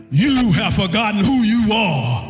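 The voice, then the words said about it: Deep, booming imitated voice. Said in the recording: “Earl Jones in that deep voice ... I wish my voice was a little bit deeper”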